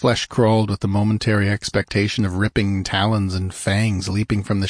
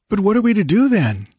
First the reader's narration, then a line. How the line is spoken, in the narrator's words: asked Balthus uneasily